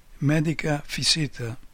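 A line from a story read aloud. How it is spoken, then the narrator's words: Hesitant. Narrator (Italian): ha detto subito dopo, con tono esitante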